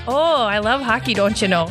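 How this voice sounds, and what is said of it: Put-on Minnesota accent. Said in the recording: “good Canadian accent ... that's Minnesota ... That's my Minnesota accent ... It's close”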